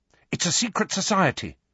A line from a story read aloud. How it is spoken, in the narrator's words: said Hermione quickly